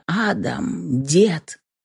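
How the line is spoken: Impatient, hoarse. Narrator (Russian): Устав ждать моего приветствия, хрипло произнес

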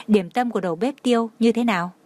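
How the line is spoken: Smiling. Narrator (Vietnamese): Tường Thiên Lỗi mỉm cười nói

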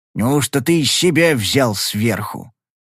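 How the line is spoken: Growl across table. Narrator (Russian): прорычал Вогель Низбету через стол

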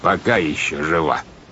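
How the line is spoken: Ominous tone. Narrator (Russian): добавил капитан Шем зловещим тоном

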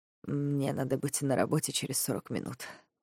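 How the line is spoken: Hoarse male voice. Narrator (Russian): говорит он хрипло

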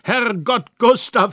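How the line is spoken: Happy exclamation. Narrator (German): rief ich glücklich

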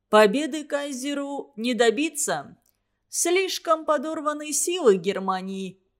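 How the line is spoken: Amused, after hearty laughter. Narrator (Russian): сказал Ленин Туранину, вдоволь посмеявшись

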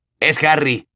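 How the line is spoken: Exclaimed. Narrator (Spanish): exclamó George

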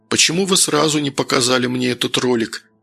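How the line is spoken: Plain question. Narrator (Russian): наконец спросил Новиков

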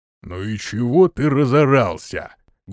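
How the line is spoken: Deep bass voice. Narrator (Russian): густым басом произнес низкий

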